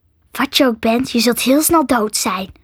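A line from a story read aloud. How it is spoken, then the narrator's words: Disgusted hiss. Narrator (Dutch): siste vol afschuw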